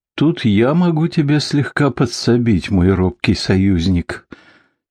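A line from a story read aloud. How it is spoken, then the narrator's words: Bitter, tired of laughing. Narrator (Russian): горько произнес голос, наконец уставший смеяться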